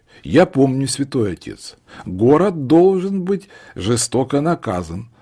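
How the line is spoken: Loud, bishop. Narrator (Russian): сказал епископ громко, так, чтобы его слышали столпившиеся в стороне кнехты

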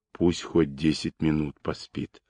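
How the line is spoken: Quiet. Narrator (Russian): тихо проговорил Даватор

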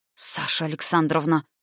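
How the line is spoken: Weak exhaled words. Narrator (Russian): выдохнул он бессильно

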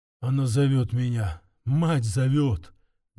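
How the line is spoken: Muffled, shaken mutter. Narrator (Russian): глухо пробормотал он, резко побледнев

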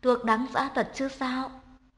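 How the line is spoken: Smiling. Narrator (Vietnamese): mỉm cười nói

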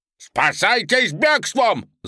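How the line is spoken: Shouting. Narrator (Russian): закричал Санта

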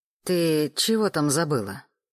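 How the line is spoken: Menacing question. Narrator (Russian): грозно уточнила Оксана Борисовна

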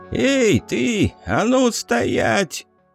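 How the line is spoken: Hoarse voice from above. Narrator (Russian): Прозвучал хриплый голос откуда-то сверху

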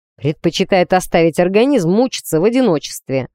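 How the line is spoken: Snorting. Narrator (Russian): хмыкнул Алекс

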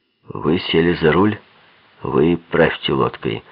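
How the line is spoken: Angry, clipped. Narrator (Russian): злобно отчеканил

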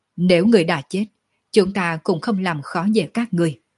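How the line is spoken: Disappointed, sighing. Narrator (Vietnamese): Sở Dương thất vọng thở dài một tiếng nói

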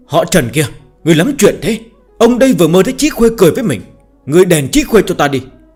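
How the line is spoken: Startled groggy loud shout. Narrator (Vietnamese): Lưu Tiễn Dương mơ màng ngủ nướng giật mình bừng tỉnh, hét ầm lên

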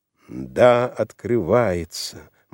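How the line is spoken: Grim. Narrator (Russian): мрачно кивнул Роберт

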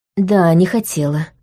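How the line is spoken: Sighing. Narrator (Russian): вздохнула я

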